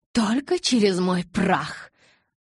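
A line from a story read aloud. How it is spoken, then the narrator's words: Hissing. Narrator (Russian): зашипела Розали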